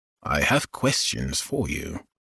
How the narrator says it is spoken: Ogden said with authority, but quietly enough to keep his voice from carrying

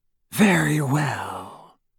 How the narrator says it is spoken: said Voldemort, and Harry heard more danger in the silkiness of his voice than in the most powerful curse

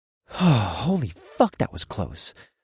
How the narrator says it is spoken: I said with a sigh of relief

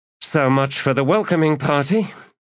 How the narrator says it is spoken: Skintik said, sighing

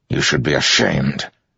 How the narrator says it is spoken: Dalinar growled at him

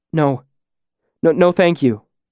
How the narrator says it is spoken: I stammered

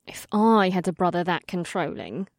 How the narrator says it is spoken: Amrila said quietly

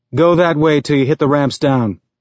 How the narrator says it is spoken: he said

